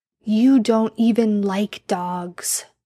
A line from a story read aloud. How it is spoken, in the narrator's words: Sam grumbled